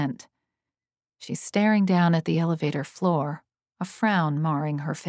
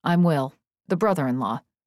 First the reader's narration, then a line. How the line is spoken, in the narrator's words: he says quickly